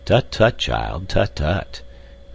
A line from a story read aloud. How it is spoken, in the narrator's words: responded Professor Porter in a kindly and indulgent tone